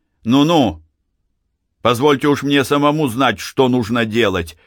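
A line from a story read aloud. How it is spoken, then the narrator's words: Shout. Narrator (Russian): крикнул Становой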